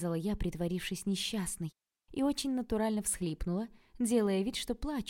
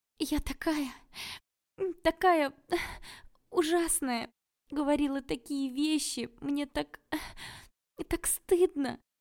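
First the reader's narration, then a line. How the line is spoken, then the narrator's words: Sobbing. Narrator (Russian): всхлипывала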